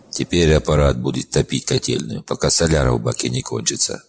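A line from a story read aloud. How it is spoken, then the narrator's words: Wry snort. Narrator (Russian): хмыкнул Дрой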